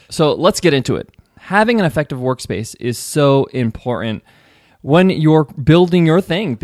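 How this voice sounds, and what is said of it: Slightly hoarse voice. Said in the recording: “my voice. My voice is not 100% ... my voice is a little hoarse”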